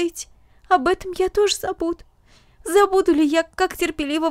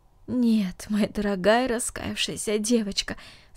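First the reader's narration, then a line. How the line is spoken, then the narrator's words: Tender, aunt's voice. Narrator (Russian): сказала тетя, нежно целуя ее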